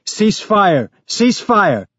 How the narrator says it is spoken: Someone in the other group was yelling

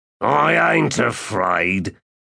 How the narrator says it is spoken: he said in a belligerent growl

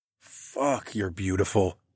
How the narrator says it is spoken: I groaned

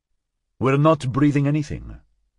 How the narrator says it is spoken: Martinez said curtly

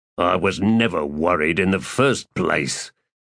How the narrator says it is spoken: the once Erdemen said in a half-snarl

